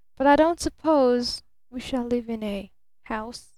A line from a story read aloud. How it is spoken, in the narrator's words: she moaned apathetically